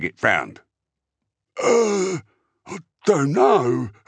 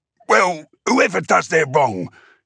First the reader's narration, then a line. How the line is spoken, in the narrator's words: the boffin said irritably